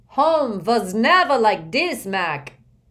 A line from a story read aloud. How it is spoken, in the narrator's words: shouted in a raspy voice that could be heard all over the ballpark